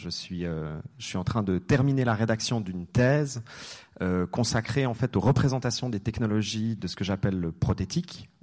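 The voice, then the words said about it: Slight Swiss French accent. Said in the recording (French): “un petit accent suisse”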